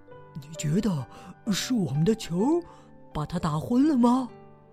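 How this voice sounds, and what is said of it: Whispered question. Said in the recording (Chinese): “小声的问”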